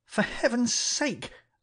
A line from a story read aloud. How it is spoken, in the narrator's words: I cried